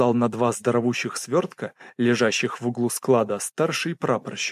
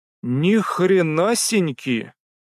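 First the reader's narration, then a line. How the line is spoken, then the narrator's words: Drawling. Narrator (Russian): протянул младший Кислицын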